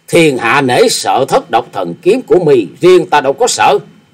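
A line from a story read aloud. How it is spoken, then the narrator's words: Sneering. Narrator (Vietnamese): nhếch môi cười khẩy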